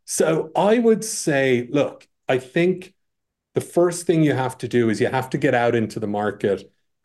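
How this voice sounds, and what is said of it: Irish accent with New Jersey tinge. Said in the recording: “an Irish guy ... I thought the accent was New Jersey ... by way of New Jersey these days”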